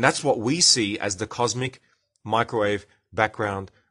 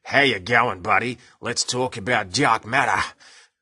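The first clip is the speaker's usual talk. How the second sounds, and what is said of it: Exaggerated broad Australian accent. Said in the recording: “Australian can be hard to understand. Lucky I'm not speaking completely Australian”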